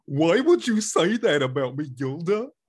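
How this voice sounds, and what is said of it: Goofy cartoon character voice. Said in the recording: “you're really good at Goofy”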